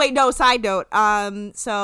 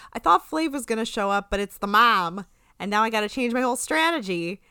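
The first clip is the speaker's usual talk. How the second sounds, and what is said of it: Poor attempt at Boston accent. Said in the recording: “I have Mr. Boston's quote written out phonetically... my Boston accent is real bad”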